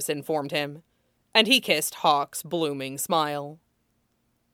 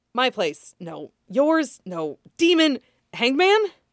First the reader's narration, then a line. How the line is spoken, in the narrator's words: Gasping all the while